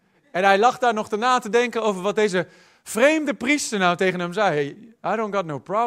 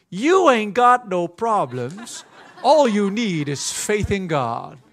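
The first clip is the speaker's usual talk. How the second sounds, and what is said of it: Put-on American Southern accent. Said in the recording (Dutch): “Of met het southern accent.”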